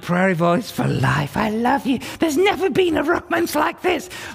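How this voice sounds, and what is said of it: Playful prairie vole character voice. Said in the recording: “my prairie vole impersonation”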